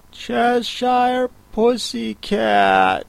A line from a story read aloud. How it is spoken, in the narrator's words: she began rather timidly